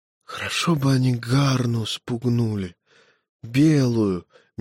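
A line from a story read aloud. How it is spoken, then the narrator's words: Dreamy whisper. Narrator (Russian): мечтательно прошептал Юдхиштхира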